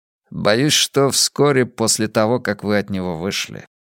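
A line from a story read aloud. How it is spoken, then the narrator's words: Gloomy reply. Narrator (Russian): мрачно ответил Блант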